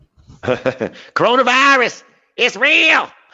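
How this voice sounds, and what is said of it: Imitates another person's voice. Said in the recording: “Can you do that impersonation one more time? ... Cardi B.”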